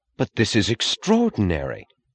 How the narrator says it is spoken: he said in the joyous, astonished tone of announcing some news she had not expected

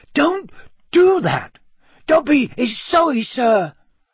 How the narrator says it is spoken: squeaked Dobby anxiously

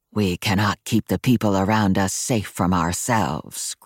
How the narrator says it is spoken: growled his wolf

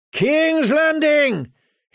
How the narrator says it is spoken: his men cried raggedly

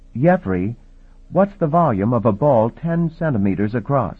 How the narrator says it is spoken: Omdi had been fidgeting impatiently

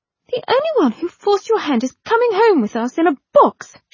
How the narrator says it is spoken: she cried out

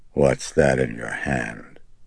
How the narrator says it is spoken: she rasped, drawing back rigidly, her eyes apprehensive

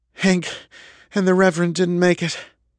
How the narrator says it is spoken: Kendra breathed

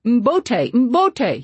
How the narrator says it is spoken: he screamed now

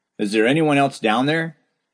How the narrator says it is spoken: someone called out to me

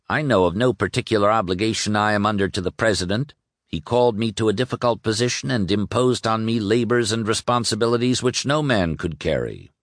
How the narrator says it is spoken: the war secretary bristled and said coldly

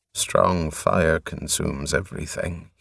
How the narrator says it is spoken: he muttered

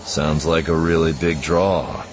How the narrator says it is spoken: Jansen said dryly

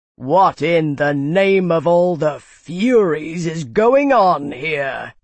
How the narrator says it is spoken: he demanded, voice booming

